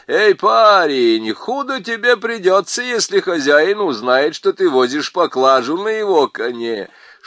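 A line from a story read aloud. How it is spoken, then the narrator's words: Shouting with rough laughter. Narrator (Russian): крикнул грубо хохоча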